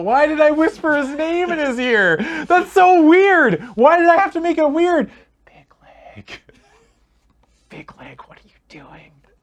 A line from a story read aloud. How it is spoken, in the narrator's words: He again starts to shout